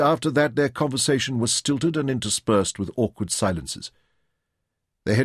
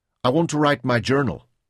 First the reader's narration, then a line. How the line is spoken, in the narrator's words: she answered